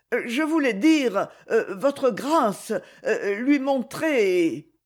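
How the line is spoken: Embarrassed stammering. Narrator (French): balbutia Jem, très rouge

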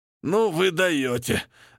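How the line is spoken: Groaning, strained, flushed. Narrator (Russian): Застонав, выдавил красный Арни

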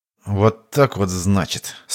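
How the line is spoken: Through gritted teeth. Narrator (Russian): сквозь зубы процедил Иван

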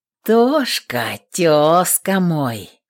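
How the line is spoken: Brother drawling. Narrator (Russian): протянул брат

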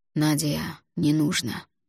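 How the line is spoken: Quiet. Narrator (Russian): негромко произнес Грит

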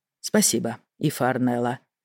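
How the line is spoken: Weary. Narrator (Russian): устало произнес Ренальд

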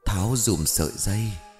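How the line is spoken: Light airy female voice. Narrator (Vietnamese): cô gái kia đáp bằng một giọng nhẹ như gió

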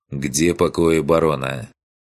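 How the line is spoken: Harsh, stern question. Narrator (Russian): снова спросил он, уже жестко и строго

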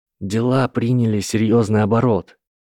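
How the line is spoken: Said gently. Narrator (Russian): мягко произнес Гарри

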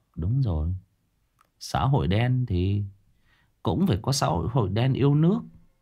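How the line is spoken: Muttering while walking. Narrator (Vietnamese): Thằng Phú vừa đi vừa lẩm bẩm

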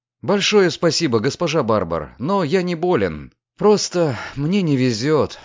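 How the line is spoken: Sighing. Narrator (Russian): вздохнул Люциан

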